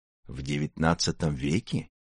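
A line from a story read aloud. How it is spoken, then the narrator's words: Hoarse. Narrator (Russian): сипло откликнулся Заурбек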